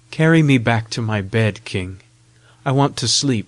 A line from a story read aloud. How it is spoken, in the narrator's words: sighed